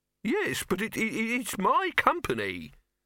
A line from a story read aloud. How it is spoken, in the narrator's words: Silverfish wailed